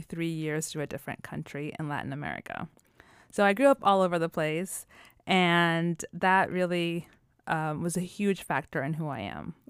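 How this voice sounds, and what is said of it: American accent. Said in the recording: “that's why I have an American accent.”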